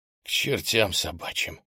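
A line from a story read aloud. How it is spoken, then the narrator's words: Whispered. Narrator (Russian): прошептал я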